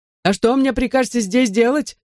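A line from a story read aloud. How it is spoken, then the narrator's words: Yelling. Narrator (Russian): завопил мистер Молтри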